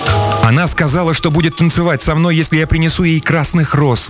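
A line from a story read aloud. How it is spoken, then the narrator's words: Young man's exclamation. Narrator (Russian): воскликнул молодой студент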